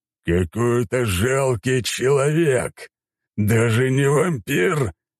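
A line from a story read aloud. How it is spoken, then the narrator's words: Growling under breath. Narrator (Russian): рычал себе под нос Дракон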